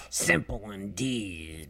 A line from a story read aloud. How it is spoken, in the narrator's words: mumbled Sir Snips haughtily